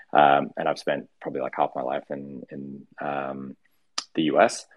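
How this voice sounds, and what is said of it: Mixed Australian-American accent. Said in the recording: “I grew up in the U.S., but I'm Australian. Um, why my accent sounds weird.”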